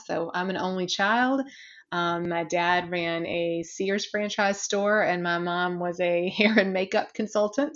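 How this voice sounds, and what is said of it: Southern US accent, South Carolina. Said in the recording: “the more I talk, the more you would probably pick up that I do have an accent... I won't probably ever lose it... I am originally from a very small town in South Carolina”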